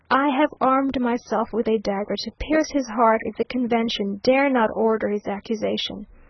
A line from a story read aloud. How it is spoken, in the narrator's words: exclaiming